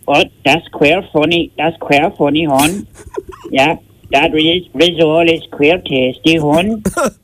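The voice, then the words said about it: Put-on Irish Wexford accent. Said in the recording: “I can do Wexford accent. Would you like to hear my Wexford accent? ... It's very difficult ... Very, very good”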